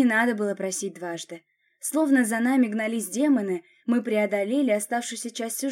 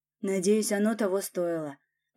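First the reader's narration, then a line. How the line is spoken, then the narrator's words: Muttered. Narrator (Russian): пробормотал Власов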